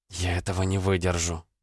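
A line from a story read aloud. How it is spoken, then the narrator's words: Whisper. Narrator (Russian): прошептала Элли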